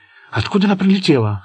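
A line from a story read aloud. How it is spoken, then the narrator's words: Anxious question, dad. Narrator (Russian): взволнованно спросил папа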